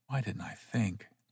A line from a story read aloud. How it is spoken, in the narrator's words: almost whispered